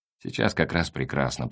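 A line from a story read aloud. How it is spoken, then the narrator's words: Muttered. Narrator (Russian): пробормотал Меркурьев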